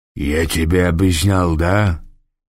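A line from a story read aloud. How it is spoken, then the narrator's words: Low booming voice. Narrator (Russian): прогудел Гасым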